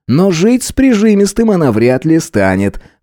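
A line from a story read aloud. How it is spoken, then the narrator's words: Snorting. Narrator (Russian): хмыкнул мой собеседник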